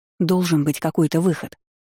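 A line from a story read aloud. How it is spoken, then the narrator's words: Mutter. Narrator (Russian): пробормотала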